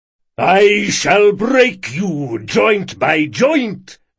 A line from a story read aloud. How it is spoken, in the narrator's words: bellowed a man with a deep, attention-seizing voice